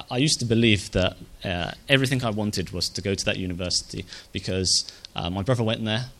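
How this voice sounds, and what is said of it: Emotional, voice close to tears. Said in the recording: “I'm getting a little bit emotional about this as well”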